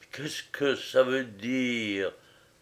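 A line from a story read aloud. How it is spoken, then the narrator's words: Murmured. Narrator (French): murmura Serge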